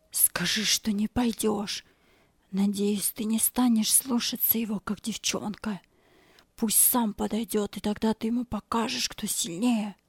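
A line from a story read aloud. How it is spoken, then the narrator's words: Whisper. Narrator (Russian): Боб шепнул ему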